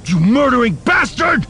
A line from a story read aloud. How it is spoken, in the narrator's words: he howled, struggling to break the stormtrooper's grip